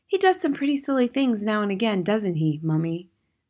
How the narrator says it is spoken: Matilda said

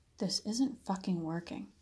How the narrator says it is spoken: whispered to himself

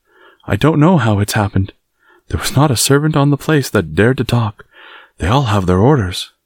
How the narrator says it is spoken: she panted

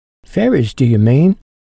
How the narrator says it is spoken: cried Griselda, her eyes sparkling

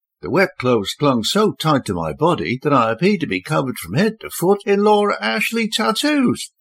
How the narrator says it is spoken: she exclaimed

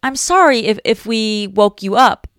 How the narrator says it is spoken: stammered

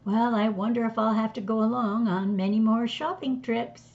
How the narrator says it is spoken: said

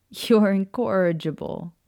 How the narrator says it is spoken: Maya said, laughing

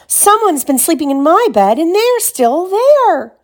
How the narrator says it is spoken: he cried

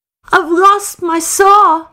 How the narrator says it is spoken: sobbed Michael

